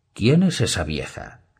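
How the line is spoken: Plain. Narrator (Spanish): le preguntó Tyrion

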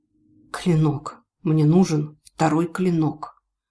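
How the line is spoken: Hoarse rasp. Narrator (Russian): тот прохрипел

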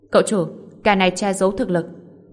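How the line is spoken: Astonished and angry. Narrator (Vietnamese): Cậu ta vừa kinh ngạc vừa giận dữ

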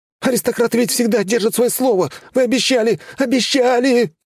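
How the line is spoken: Desperate babbling, fading away. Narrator (Russian): отчаянно лепетал парнишка, пока его голос не смолк за закрывшейся дверью

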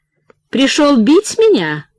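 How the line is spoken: Fearless cheerful question. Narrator (Russian): Бесстрашно, весело спросила она

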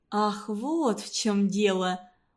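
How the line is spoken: Dejected drawl, teacher. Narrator (Russian): упавшим голосом протянула учительница

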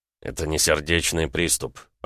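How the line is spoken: Muttering. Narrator (Russian): пробормотал Ромка

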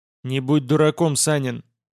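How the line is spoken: Stern angry shout. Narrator (Russian): Строго прикрикнул на меня неожиданно разозлившийся грек

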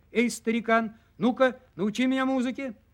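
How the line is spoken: Hurried shout into ear. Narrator (Russian): так спешил, изо всех сил крикнул ему прямо в ухо

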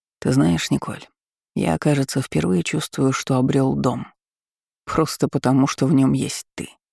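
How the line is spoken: Quiet. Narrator (Russian): тихо сказал он

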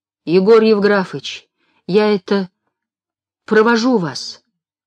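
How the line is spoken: Tired, loving. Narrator (Russian): Устало и любяще говорит Марфуша

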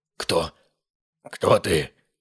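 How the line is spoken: Rasping. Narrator (Russian): прохрипел Риверс

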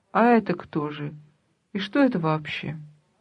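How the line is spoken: Quiet speech. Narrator (Russian): Он тихо говорит

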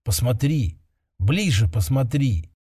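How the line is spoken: Warm soft lulling whisper. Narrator (Russian): шепот был теплым и мягким, фактически усыпляющим

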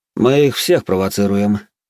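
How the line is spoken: Calm. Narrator (Russian): спокойно ответил барон

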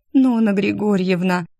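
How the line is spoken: Hopeless moan. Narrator (Russian): обреченно простонала беременная девушка

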